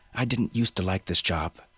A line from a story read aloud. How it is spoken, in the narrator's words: she said